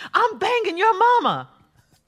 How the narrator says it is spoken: They both had had too much to drink, so David got fed up and yelled

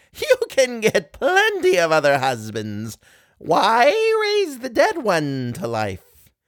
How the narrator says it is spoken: he only laughed and said

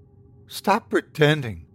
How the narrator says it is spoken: she said, her tone controlled but shaky

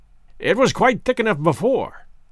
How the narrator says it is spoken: grumbled Lestrade

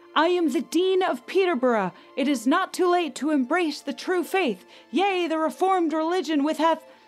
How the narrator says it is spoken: a man rose and shouted to Mary

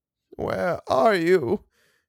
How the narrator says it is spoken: sobbed

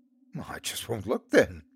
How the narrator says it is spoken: laughed Mark

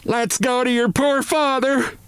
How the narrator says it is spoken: this shout

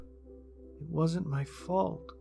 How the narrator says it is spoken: Jane mumbled

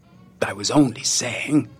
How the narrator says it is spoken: Santa mumbled into his beard

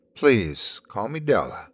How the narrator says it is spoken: requested, smiling warmly

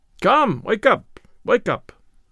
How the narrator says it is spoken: cried the steward

